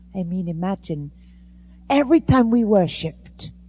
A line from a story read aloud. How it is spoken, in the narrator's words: she cried